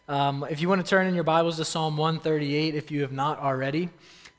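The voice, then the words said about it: Raspy, strained voice. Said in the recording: “My voice is a little bit raspy, as you can tell. It's giving out a little bit ... I might just sound kind of funny”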